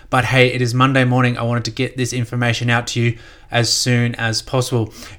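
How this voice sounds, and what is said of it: Flat, tired-sounding voice. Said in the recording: “my voice is a bit flat. I am still very jet lagged.”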